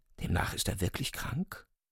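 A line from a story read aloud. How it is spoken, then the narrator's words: Dismayed whisper. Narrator (German): flüsterte Ryuchin bestürzt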